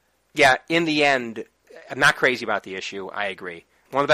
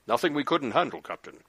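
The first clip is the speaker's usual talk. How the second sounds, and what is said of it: Imitates Worf's voice. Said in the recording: “my Worf impression ... It was a good one. ... Spot on.”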